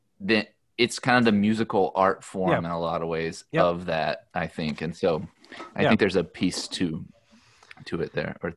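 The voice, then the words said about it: Southern American accent. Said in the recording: “your southern accent allows you to say theater”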